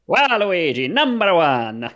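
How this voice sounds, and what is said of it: Waluigi voice impression. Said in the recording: “Does anyone have a good impression of that? ... Pretty good. ... I've never heard his voice, but that sounds right.”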